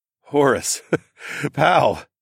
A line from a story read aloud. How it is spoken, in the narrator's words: I continued to laugh